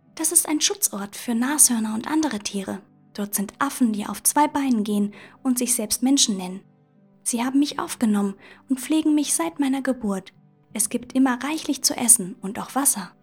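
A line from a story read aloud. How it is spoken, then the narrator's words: Plain. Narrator (German): sagt Sola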